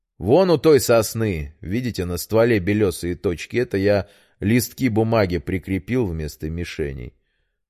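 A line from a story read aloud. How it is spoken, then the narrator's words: Plain. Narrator (Russian): ответил Петр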